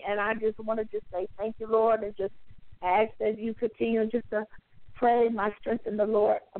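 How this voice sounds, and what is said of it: Hoarse, strained voice. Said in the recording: “I'm losing my voice here a little bit”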